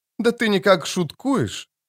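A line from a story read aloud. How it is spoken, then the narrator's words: Soft, friendly, after pause. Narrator (Russian): сказал после недолгого молчания эльф, поразительно мягко и дружелюбно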